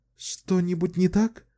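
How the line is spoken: Frightened question. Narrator (Russian): испуганно спросила она

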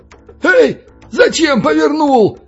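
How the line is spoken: Belarusian man shouting. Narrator (Russian): крикнул белорус

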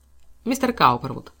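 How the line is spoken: Calm, undaunted. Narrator (Russian): спокойно начал мистер Арнил, немало не обескураженный самоуверенным видом своего врага

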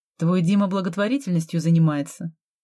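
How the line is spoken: Scornful snort. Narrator (Russian): фыркнула Полина

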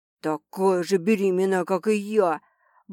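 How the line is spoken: Murmuring. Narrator (Russian): бормочет он

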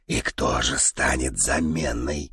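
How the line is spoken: Soft clarifying question. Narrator (Russian): мягко уточнил Дон

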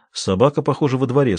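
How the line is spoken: Plain. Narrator (Russian): сказал Твич

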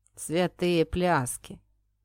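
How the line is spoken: Gloomy remark. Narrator (Russian): мрачно прокомментировал кучер

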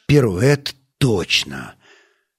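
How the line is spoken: Sighing. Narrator (Russian): Стас вздохнул

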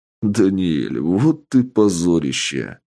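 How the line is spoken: Laughing. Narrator (Russian): рассмеялся босс

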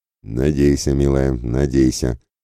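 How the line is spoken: Thoughtful mutter. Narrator (Russian): задумчиво пробормотал Ратибор

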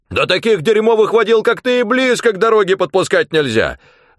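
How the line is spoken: Screaming. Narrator (Russian): завопил он

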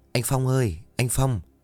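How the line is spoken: Soft calling. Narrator (Vietnamese): cô khẽ gọi

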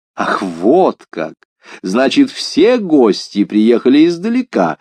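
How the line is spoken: Laughing. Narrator (Russian): смеясь сказал маркиз де Помпадур

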